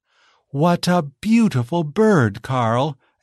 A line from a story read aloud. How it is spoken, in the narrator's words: exclaimed Giselle